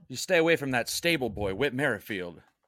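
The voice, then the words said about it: Put-on British accent, spot on. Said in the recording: “that's your spot on British accent that we know and love”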